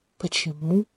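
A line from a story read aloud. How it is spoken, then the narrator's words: Quiet questioning. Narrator (Russian): Так же тихо переспросил Тантаэ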